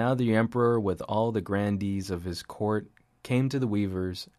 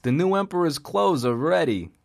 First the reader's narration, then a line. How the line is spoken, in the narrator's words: cried